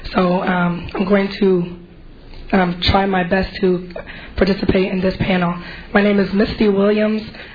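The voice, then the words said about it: Hoarse, failing voice. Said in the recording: “I'm actually losing my voice.”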